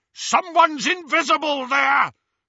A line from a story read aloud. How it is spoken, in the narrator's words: shouted a masked Death Eater